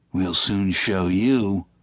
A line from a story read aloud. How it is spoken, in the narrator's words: growled Müller